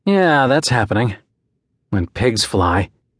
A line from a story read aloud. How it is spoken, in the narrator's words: he sighed